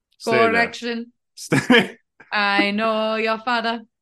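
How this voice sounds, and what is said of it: Put-on accent quoting Rafiki. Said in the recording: “we're going to do the accent because it's a direct quote ... say anything in an accent that is not traditionally white spoken”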